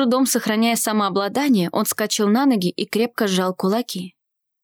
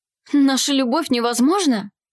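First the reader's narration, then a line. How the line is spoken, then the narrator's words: Young man exclaiming. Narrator (Russian): Воскликнул юноша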